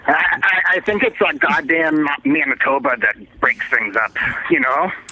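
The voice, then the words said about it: Canadian accent. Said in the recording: “You say A in your Canadian accent”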